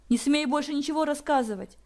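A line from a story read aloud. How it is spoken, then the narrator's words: Hysterical young woman exclaiming. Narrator (Russian): истерично воскликнула девушка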